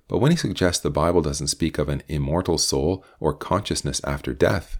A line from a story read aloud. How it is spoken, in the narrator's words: Mark persisted in a whispered voice